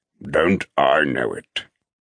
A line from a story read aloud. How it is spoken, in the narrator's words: Cress says dryly